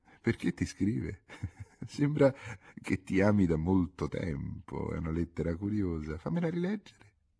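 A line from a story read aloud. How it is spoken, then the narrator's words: Laughing question. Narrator (Italian): Il signor Alberto le domandò ridendo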